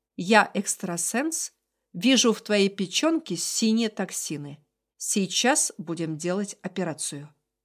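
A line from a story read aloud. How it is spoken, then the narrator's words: Stern. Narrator (Russian): Подруга строго сказала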